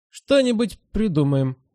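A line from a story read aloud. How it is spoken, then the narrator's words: Uncertain. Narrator (Russian): неуверенно сказал волк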